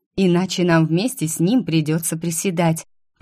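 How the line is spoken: Explaining. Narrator (Russian): пояснила

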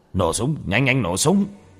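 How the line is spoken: Commander's sharp shout. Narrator (Vietnamese): Trần quân trưởng quát lên

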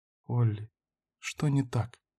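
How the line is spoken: Quiet question. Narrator (Russian): тихо спросила Карин

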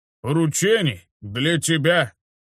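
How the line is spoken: Astonished, then laughing. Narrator (Russian): изумился стражник и расхохотался

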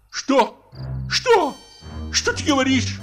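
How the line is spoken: Shouting at top of lungs. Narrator (Russian): крикнул во все горло Мигуев

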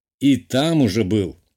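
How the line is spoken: Amused grunt, guessing. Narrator (Russian): хмыкнул я и предположил

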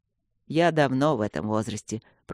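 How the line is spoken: Grumbled. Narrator (Russian): пробурчал Люк

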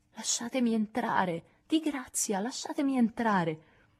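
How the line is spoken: Pleading. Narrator (Italian): implorò

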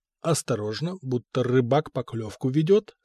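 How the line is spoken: Plain. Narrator (Russian): спросил он

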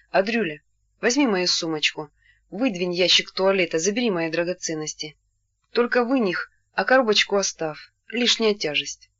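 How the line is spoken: Calm. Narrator (Russian): сказав ему уже спокойно

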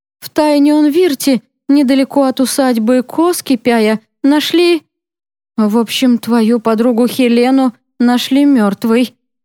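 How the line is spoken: Mother speaking, then sobbing. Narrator (Russian): сказала мама и разрыдалась

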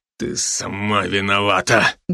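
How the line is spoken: Muffled, spat out. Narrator (Russian): глухо выплюнул Сомерсет

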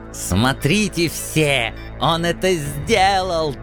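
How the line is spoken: Shrill howl. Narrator (Russian): тонко взвыл зубастый Зингельхофер

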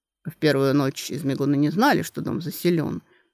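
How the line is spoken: Gloomy tone. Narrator (Russian): мрачно сказал Дан Реган

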